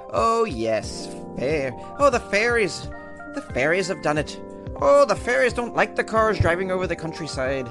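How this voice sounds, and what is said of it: Put-on Irish accent. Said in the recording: “How was that for an Irish accent? That's not bad.”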